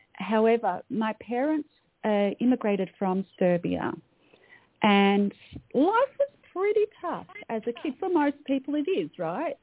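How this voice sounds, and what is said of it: Australian accent. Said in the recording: “I'm an Australian. I was born in Melbourne, Australia. You can probably tell by my accent.”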